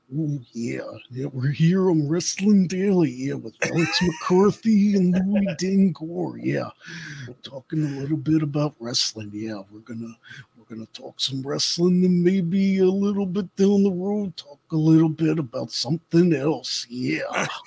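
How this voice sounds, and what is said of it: Macho Man impression. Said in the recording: “I can do a decent Macho Man impression,”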